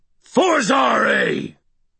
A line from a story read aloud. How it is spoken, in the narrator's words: snarling